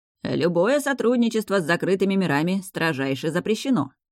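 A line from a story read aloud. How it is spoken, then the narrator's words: Cheerful, grinning. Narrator (Russian): весело оскалил зубки Басит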